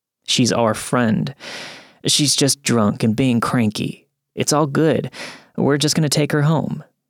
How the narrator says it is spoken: he says

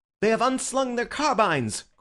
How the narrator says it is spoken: cried Bull, dancing with excitement

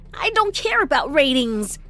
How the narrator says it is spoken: I snapped

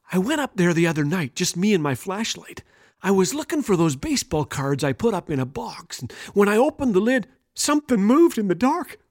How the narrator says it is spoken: he continued in a soft whisper

